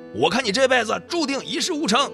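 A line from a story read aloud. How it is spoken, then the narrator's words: Loud roar. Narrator (Chinese): 小斌的父亲对着他大声吼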